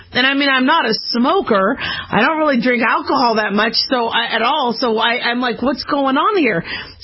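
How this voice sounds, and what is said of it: Hoarse voice. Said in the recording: “my voice was getting hoarse... My voice used to not, sound like this... Now I sound like this.”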